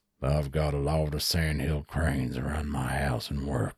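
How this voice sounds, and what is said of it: Put-on cowboy accent. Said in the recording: “that accent... Because of the cowboy... It sounds like the Ford truck commercials... That's not bad... you just need the twang”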